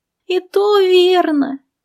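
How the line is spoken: Sighing. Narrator (Russian): вздохнул

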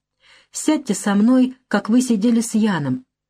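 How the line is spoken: Timid boyish whisper. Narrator (Russian): шепчет он робко, как мальчик

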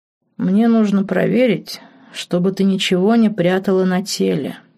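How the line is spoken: Lazy. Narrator (Russian): лениво сообщил ей Дон Диего

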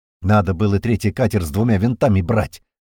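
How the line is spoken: Angry. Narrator (Russian): зло сказал Туман

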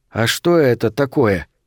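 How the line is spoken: Quiet question. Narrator (Russian): тихо спросил

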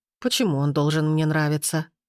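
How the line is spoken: Scornful snort. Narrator (Russian): фыркнула она

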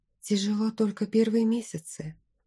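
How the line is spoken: Barely audible whisper. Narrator (Russian): почти неслышно шепнула я

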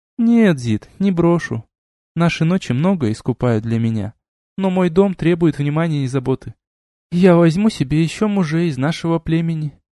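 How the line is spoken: Gentle. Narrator (Russian): мягко сказала Лисана

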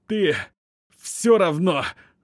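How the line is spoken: Forced out, spitting blood. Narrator (Russian): Плюясь кровью, выдавил

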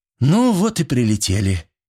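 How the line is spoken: Breathy exhale. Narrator (Russian): Любочка выдохнула

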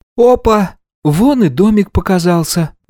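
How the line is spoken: Exclamation. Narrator (Russian): воскликнул Никита

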